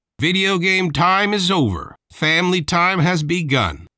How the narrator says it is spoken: Dad shouted toward the ceiling

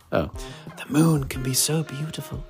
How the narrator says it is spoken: he whispered with a sigh

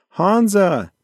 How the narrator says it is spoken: She yelled out

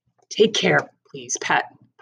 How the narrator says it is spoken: Pa said

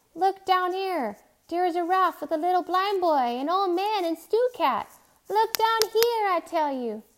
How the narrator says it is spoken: Timothy shouted

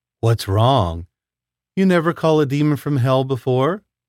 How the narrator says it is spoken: She chuckled to herself

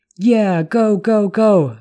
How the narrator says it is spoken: Benny shouted, then whooped

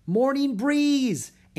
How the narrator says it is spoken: Annie cried

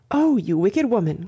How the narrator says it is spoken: cried Miss Bartlett

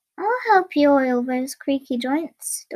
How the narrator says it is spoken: Dorothy said, kindly

